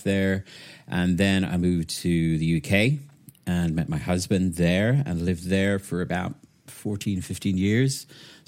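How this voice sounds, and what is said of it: Mix of British and soft Irish accent. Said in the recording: “my accent is kind of a weird hybrid between UK and soft Irish”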